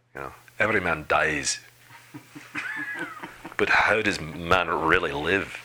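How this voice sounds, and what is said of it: Imitates another person's voice. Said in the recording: “That's my best Mel Gibson impersonation.”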